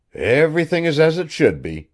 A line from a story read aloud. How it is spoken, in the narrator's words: he chuckled